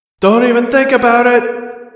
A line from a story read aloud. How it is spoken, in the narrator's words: She shouted over the loudspeaker